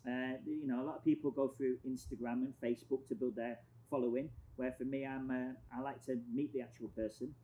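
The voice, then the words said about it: Foreign, non-local accent. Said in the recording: “I think it helps with my accent ... oh, you're not from here as well ... his accent”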